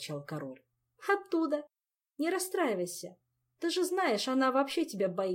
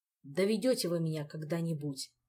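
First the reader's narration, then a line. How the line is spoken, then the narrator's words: King's upset sigh. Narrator (Russian): огорченно вздохнул король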